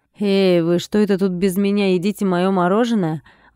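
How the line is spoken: Indignant. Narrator (Russian): возмущенно проговорил Андрей

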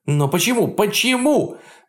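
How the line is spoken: Furious shout. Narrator (Russian): Вне себя от ярости закричал Бочков

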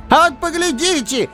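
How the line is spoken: Shouting from all sides. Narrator (Russian): кричали то справа, то слева

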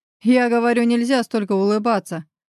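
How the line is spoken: Loud laugh, wincing in pain. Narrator (Russian): Хохотнув в голос, кривлюсь от почти уже терпимой боли в заживающих ребрах

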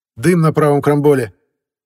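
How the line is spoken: Sudden shout. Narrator (Russian): вдруг выкрикнул сигнальщик

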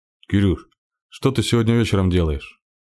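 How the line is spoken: Plain. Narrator (Russian): спросил Серега

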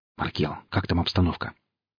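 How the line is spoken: Quiet, into headset. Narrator (Russian): бурелом тихо спросил в гарнитуру

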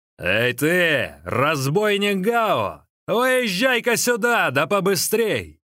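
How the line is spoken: Thunderous shout. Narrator (Russian): Линчун громовым голосом закричал

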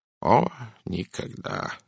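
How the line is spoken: Mumbled. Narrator (Russian): пробормотал он

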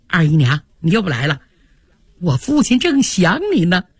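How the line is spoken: Cheeky, grinning. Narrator (Chinese): 贾蓉这小子 嬉皮笑脸的说

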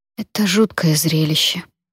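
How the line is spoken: Quiet. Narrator (Russian): тихо сказала

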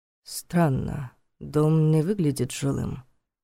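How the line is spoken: Muttered. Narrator (Russian): пробормотал Войтах

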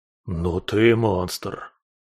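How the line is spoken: Stunned wheezing toad. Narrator (Russian): Прохрипел ошарашенный неожиданной концовкой полета жаба

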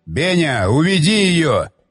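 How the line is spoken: Shouting again. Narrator (Russian): снова крикнул он

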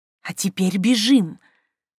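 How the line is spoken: Insistent hissing in ear. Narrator (Russian): Снежка настойчиво зашипела ей в ухо

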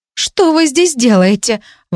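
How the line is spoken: Exclaimed. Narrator (Russian): воскликнула

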